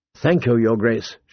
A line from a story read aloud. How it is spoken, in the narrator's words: murmured